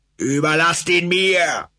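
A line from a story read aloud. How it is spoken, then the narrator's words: Hysterical shouting. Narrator (German): brüllte Kong hysterisch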